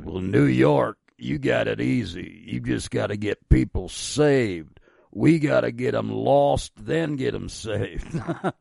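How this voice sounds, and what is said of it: Deep grizzled Mississippi accent. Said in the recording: “he said in his very deep Mississippi grizzled accent”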